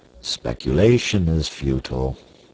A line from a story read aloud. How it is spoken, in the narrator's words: said sadly